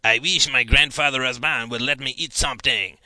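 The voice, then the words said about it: Put-on French-Canadian accent. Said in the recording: “adopting a French-Canadian accent”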